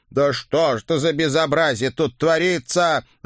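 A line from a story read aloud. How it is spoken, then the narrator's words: Loud monstrous howl. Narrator (Russian): в голос взвыл кто-то из вурдалаков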